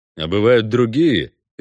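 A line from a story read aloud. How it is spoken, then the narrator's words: Ironic snort. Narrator (Russian): иронически хмыкнул Геральт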